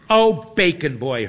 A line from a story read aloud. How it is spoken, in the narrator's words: exclaims